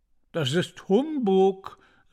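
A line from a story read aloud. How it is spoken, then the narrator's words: Called out. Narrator (German): rief Washington Otis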